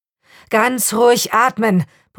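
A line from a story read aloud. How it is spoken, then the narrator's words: Muffled shout through mask. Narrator (German): brüllte der Mann, kaum zu verstehen durch seinen klobigen Rüssel aus Kunststoff und Metall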